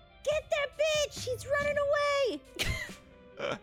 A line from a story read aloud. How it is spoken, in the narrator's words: Trisay will yell